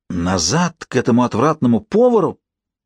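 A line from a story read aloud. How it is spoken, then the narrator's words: Exclaimed. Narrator (Russian): воскликнул он наконец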